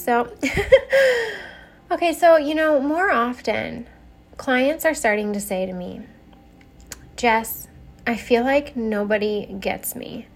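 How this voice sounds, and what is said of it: Slightly rough, sick-sounding voice. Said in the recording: “Pardon my voice a little bit here. I got just a little cold”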